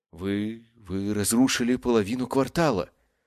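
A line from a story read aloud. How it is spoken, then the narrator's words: Forced out. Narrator (Russian): наконец выдавила Брина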